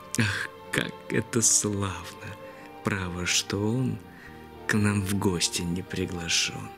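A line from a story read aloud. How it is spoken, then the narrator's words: Whispered. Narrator (Russian): она шепнет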